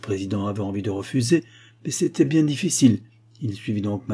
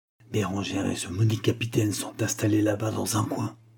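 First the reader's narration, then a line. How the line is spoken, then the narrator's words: Low voice. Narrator (French): dit-il à voix basse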